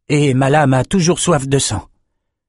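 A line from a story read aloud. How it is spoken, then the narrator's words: Hoarse voice. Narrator (French): dit Bannon d'une voix éraillée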